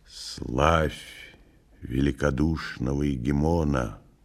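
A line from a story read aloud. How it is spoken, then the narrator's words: Solemn whisper. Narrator (Russian): торжественно шепнул он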